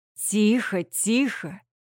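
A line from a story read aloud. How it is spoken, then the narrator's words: Almost tender baritone. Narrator (Russian): Почти нежно произносит владелец сексуального баритона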